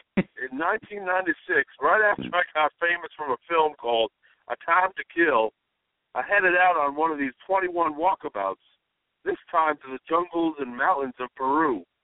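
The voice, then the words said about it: Poor imitation of another person's accent. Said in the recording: “Here's a terrible accent”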